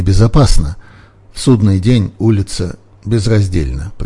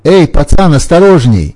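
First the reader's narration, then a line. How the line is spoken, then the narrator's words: Shout. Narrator (Russian): крикнул он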